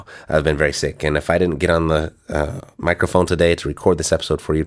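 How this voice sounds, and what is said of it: Sick-sounding voice. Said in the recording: “I've been very sick. You can probably tell by my voice”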